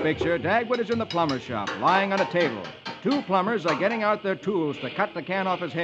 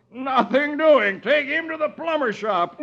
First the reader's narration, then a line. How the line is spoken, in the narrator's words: he yells